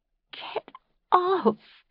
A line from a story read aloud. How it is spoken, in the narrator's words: Fanny said, giggling